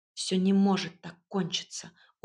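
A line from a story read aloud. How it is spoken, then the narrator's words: Stubborn mutter. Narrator (Russian): упрямо пробормотала я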